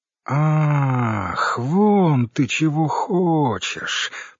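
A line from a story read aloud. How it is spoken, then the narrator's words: Drawling. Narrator (Russian): протянула Оксана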